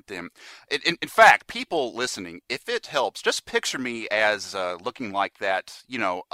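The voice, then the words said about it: American accent, slight stutter. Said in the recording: “I have this weird kind of a weird stutter, and I have this awkward American accent ... beautiful, beautiful ... accent”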